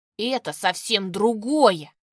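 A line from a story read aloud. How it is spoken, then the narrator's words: Snapping back. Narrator (Russian): огрызнулся он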